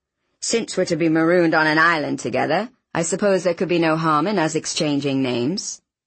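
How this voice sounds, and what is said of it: Oxford accent with slight foreign tinge. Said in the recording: “I tried to place his accent. Oxford with a touch of something else. Scandinavian, perhaps?”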